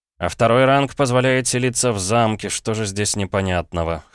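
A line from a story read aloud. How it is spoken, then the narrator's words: Snort. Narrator (Russian): хмыкнул я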